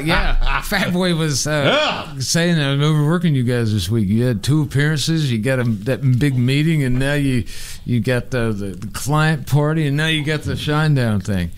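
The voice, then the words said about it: Impression of a colleague's voice. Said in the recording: “doing an impression.”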